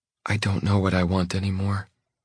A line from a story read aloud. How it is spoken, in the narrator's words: she says quietly